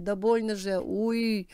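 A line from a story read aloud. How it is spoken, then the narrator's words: Pained moan. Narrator (Russian): простонал он милиционеру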